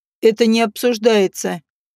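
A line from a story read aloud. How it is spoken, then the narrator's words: Cold, curt interruption. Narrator (Russian): холодно оборвал ее Жак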